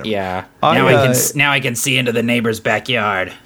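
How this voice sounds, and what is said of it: Character voice impression. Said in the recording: “that was a very good Captain Gothnog impression.”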